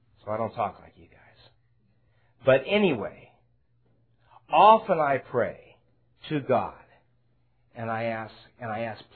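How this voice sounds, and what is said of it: Speaks with an unfamiliar accent. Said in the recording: “Excuse me for my English ... excuse me for my strange accent”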